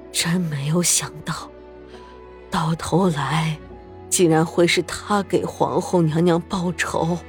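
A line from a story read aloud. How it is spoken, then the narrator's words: Murmuring. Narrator (Chinese): 喃喃道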